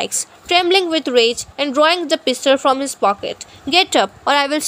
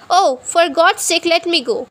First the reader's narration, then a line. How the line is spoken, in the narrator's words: cried Oliver